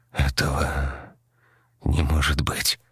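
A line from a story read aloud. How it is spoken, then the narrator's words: Quiet trembling voice. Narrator (Russian): дрожащим голосом тихо сказал Донован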